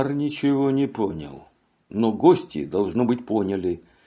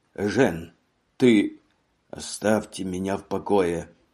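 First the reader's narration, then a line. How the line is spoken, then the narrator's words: Tired voice. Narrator (Russian): Усталым голосом отозвался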